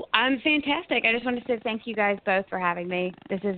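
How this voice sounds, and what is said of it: Tennessee accent. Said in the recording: “Did my accent give it away, or was it just the area code? ... Do you have a Tennessee area code maybe?”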